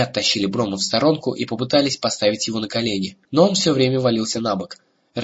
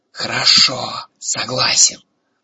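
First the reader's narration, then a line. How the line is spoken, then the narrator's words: Hiss. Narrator (Russian): тот, что был повыше, прошипел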